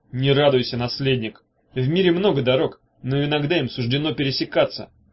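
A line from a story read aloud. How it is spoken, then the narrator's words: Menacing. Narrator (Russian): грозно начал Багров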